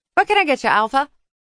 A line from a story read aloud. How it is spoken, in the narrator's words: She chirped, as though nothing had happened